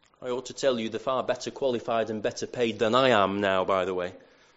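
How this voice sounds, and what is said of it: Lancashire English accent. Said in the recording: “my Lancashire accent”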